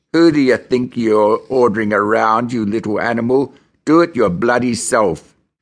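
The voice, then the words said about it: Sneering Hollywood gangster voice. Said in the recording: “sneered back in my best Hollywood crim voice”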